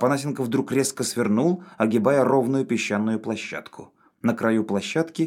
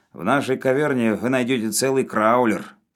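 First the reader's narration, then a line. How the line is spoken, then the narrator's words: Gloomy grumble. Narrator (Russian): мрачно проворчал Навага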